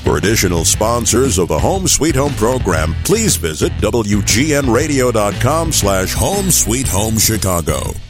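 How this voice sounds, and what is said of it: Deep announcer voice. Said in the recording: “That's the voice, deep voice.”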